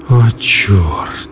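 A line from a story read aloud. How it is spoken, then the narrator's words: Sighing. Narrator (Russian): вздохнул Стаценко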